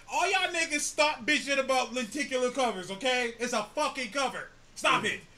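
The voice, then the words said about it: Yelling, loud ranting voice. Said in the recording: “I'm yelling. I don't know why.”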